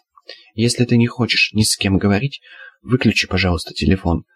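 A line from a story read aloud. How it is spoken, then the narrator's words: Plain. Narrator (Russian): сказала Алена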